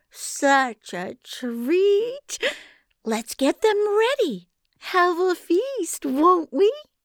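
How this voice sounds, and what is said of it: Syrupy giant woman voice. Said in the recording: “in her syrupy voice.”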